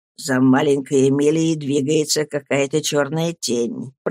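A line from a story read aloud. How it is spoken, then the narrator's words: Quiet, strange tone. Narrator (Russian): проговорил Стирфорд как-то тихо и странно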